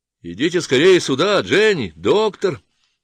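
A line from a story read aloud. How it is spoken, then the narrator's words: Shouting. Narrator (Russian): закричал он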